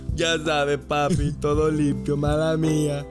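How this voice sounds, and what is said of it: Put-on Puerto Rican or Colombian accent. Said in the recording (Spanish): “como con acento de Puerto Rico, Colombia”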